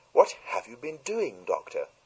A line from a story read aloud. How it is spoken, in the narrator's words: cried Mrs